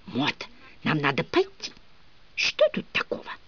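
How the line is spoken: Heated whisper. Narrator (Russian): горячо шептала мне в ухо мадам

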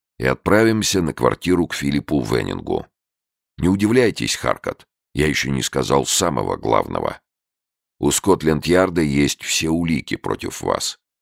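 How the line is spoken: Calm warning. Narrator (Russian): спокойно предупредил он

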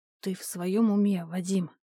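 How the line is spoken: Strained, forced out. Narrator (Russian): мне удалось из себя выдавить

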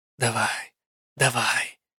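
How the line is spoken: Whispered. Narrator (Russian): шепнула я

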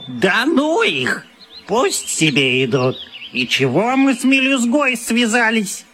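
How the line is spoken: Vicious squeal. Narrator (Russian): Хромой злобно взвизгнул

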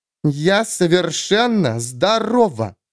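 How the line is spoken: Through gritted teeth. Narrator (Russian): процедила Клара

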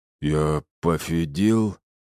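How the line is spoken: Werewolf's mumbling lisp. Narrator (Russian): прошамкал оборотень окровавленными губами

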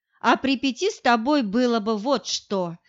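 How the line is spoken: Laughing. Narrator (Russian): смеялся

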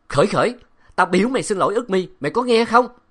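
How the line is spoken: Man shouting. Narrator (Vietnamese): Ông quát

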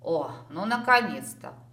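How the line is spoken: Amused grunt. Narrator (Russian): хмыкнул бородатый мужик

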